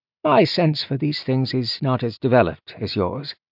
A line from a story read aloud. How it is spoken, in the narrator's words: he said